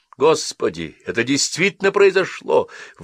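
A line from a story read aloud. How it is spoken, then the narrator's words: Exclaimed. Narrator (Russian): воскликнул Ричард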